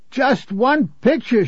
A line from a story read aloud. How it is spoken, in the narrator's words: she wailed